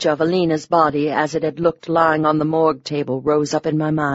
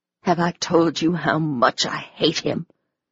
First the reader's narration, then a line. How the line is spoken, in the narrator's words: I hissed